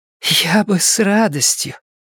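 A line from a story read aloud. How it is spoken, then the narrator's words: Hoarse female rasp. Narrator (Russian): прохрипела Бейтс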